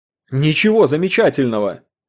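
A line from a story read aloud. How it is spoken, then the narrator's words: Barked. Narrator (Russian): рявкнул Поттерли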